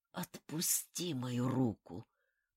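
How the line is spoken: Hoarse rasp. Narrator (Russian): прохрипел Хару

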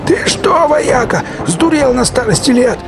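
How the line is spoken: Yell. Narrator (Russian): заорал Сивый

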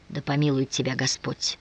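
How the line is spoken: Whisper. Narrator (Russian): прошептал тот

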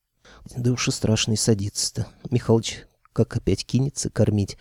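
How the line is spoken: Confidential whisper. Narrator (Russian): доверительно зашептал

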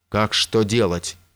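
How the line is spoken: Shout. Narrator (Russian): крикнул он

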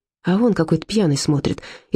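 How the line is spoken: Frightened whisper. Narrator (Russian): испуганно шепнула Зильке

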